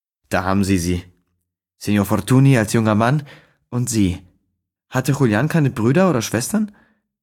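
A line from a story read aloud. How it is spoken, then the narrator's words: Sighing speech. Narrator (German): Seufzend die Pförtnerin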